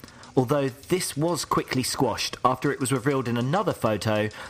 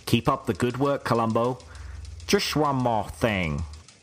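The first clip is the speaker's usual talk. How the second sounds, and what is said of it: Terrible Columbo impression. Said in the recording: “that's the worst Colombo accent I've ever, ever heard ... this kind of impression thing ... Yeah, it's terrible.”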